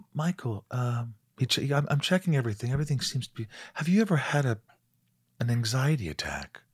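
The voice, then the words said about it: Quiet, soothing impersonated voice. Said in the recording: “That's a great Dr. Lim impersonation... he speaks so quietly and so comforting... Just that voice is very... soothing”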